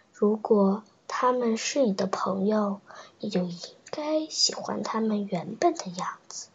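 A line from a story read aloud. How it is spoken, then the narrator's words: Gentle. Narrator (Chinese): 美兰达王后温柔地说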